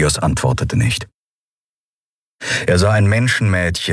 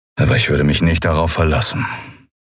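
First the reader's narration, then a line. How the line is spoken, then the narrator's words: Flat toneless voice. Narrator (German): sagte Telios mit tonloser Stimme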